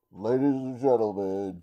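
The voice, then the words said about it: Booming sports announcer voice. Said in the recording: “announcer voice...”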